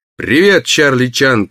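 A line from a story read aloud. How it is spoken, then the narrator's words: Barked. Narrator (Russian): рявкнул Барни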